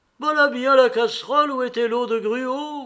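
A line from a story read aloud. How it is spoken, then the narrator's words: Exclaimed. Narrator (French): s'écria-t-il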